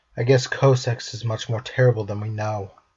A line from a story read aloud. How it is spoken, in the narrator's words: Riku sighed